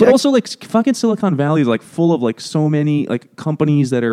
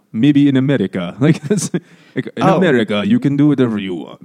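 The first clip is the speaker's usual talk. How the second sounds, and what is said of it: Imitates a film character's accent. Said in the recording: “guy from that pirate movie with Tom Hanks. The Somali pirate guy ... This is my shitty accent ... That's not my Somali accent”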